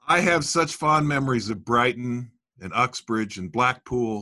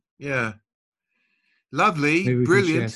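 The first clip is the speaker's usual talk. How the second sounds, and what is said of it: Put-on English accent. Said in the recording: “I came back talking with an English accent”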